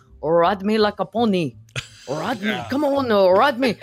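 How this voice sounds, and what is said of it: Put-on French accent. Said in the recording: “in like in a French accent”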